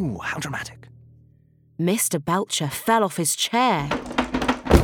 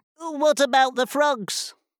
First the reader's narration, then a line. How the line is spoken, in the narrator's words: called out